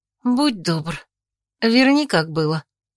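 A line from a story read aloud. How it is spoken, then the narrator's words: Calm request. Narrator (Russian): попросила спокойно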